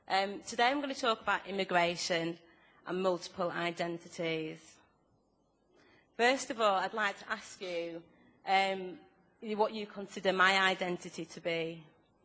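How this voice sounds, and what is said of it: Speaker's own noticeable accent. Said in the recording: “if anybody can't understand my accent or speak too fast”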